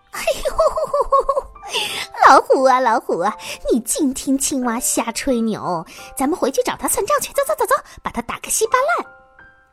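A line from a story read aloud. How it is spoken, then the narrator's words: Hearty laughter. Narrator (Chinese): 狐狸一听，哈哈大笑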